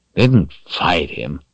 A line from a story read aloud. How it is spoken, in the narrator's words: Chase grumbled